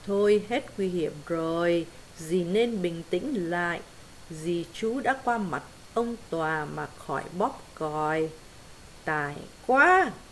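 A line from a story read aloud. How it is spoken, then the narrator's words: Impatient, no longer gentle. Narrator (Vietnamese): Nàng mất hết cả dịu dàng kiên nhẫn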